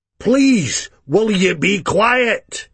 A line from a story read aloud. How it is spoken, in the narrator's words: he shouted